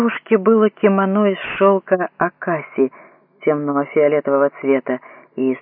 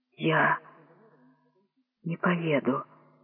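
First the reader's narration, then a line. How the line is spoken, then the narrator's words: Trembling young woman's voice. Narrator (Russian): сказала девушка дрожащим голосом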